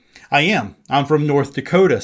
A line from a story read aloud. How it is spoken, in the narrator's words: said the stranger